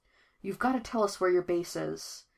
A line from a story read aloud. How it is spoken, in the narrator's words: Coat Thief whispers urgently